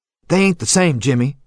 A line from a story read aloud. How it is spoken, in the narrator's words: he kept saying in a hurt tone